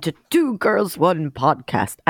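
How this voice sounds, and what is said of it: Dracula-style voice. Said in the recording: “I don't know why I'm talking like that... Like Dracula?... That is what it is.”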